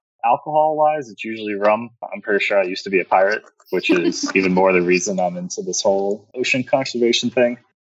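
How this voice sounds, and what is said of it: South Jersey Philadelphia-area accent. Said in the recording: “I'm from South Jersey, so I say water, like a Philadelphian ... You sound like my cousins from Jersey.”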